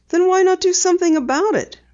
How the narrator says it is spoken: Penny asked soothingly

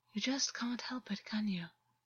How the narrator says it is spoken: August murmured

